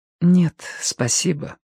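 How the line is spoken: Quiet. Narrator (Russian): ответила она тихо

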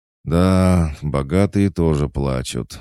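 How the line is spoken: Sighing. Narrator (Russian): вздохнул Серега

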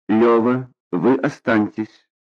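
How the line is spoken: Dry, curt. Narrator (Russian): сухо сказала Рубинчику

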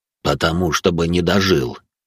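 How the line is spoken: Wry grunt. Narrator (Russian): хмыкнул он

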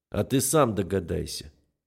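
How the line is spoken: Grim smirk. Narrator (Russian): мрачно ухмыляюсь я

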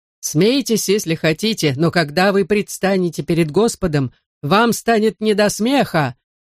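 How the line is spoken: Furious shout. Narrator (Russian): в ярости выкрикнул преподобный Блессет

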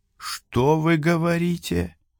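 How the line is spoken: Whispering official. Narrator (Russian): шепотом произнес бургомистр

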